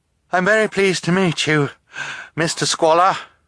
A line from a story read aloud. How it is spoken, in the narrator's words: Violet said, still panting